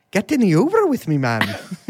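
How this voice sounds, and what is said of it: Exaggerated leprechaun-style Irish voice. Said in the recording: “How Irish people really sound. ... Do the lucky charms voice ... It's awful.”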